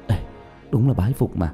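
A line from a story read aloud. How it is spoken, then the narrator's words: Whispered. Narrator (Vietnamese): thì thào phun ra hai chữ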